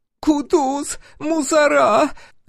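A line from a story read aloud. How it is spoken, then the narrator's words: Sudden shriek. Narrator (Russian): Вдруг взвизгнула проститутка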